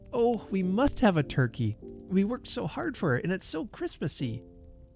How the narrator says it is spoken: cried Sam

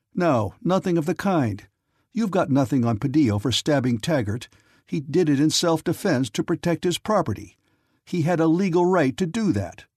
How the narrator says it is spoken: Nick silenced her laugh, however, by retorting pointedly

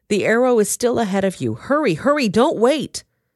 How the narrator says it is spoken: Jonathan shouted

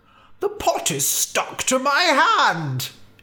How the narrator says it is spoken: he cried

